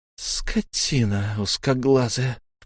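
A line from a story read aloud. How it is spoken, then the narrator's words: Low hiss. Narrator (Russian): вполголоса прошипела она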